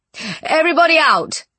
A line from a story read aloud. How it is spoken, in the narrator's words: he shouted